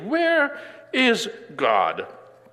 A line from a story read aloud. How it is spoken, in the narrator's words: the pastor asked the boy sternly